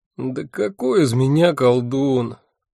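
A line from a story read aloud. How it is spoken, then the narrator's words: Groaning. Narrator (Russian): простонал я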